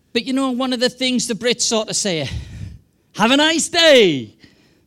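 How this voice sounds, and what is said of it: Non-American English accent. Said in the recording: “as you can tell from my accent, I'm not American”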